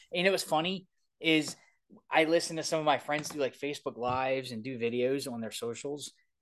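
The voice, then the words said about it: Thick Baltimore accent. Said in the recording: “Everybody says I have custody Baltimore ... I can hear it so thick ... I sound just like, I mean, I'm born and raised here. Obviously, I had the accent ... is it late and went thick ... the one guy's definitely from Baltimore. You can tell just from the accent.”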